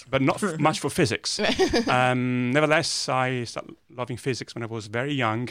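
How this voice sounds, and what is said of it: Italian accent. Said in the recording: “as you can tell from my accent, I'm Italian.”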